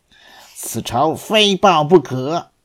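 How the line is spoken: Through gritted teeth. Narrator (Chinese): 窝囊废咬牙切齿地说道

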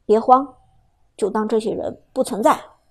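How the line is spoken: Low, encouraging. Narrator (Chinese): 苏哲低声鼓励道

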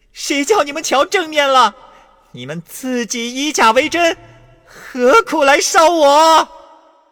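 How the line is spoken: Shouting. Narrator (Chinese): 那跛足道人从外面跑来，喊道

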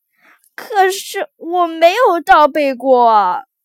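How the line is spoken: Stammering. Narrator (Chinese): 威尔弗雷德结结巴巴地说

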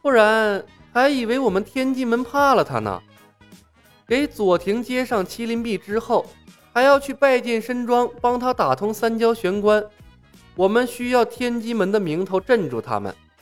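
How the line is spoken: Laughing. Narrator (Chinese): 李牧笑道

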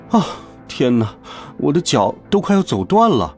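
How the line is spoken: Sighing. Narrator (Chinese): 我叹息道

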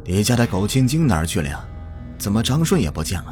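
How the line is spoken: Calm, indifferent. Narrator (Chinese): 林芳淡淡的说

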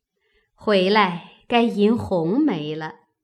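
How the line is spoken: Laughing. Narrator (Chinese): 又笑道

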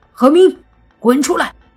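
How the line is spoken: Shouting. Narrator (Chinese): 一喊完

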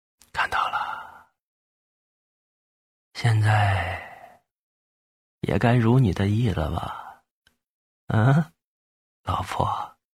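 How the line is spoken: Low voice. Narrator (Chinese): 低声说

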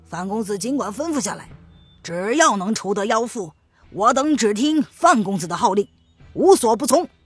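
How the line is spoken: Shouted. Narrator (Chinese): 下面的人喊道

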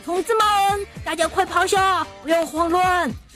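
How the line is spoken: Shouting. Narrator (Chinese): 队长喊道

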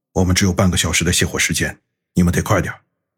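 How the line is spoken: Middle-aged man, low voice. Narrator (Chinese): 那个中年人再次低声说道

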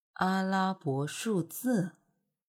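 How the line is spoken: Soft murmur. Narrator (Chinese): 夏侯玉轻声的呢喃着

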